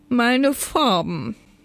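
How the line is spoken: Wailing flower elf. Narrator (German): jammerte der Blumenelf

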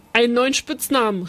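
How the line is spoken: Calling out. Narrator (German): rief Uli

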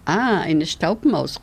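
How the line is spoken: Laughing exclamation. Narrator (German): rief Tic-Tac und lachte

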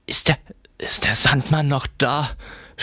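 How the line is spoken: Stammering. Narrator (German): stammelte

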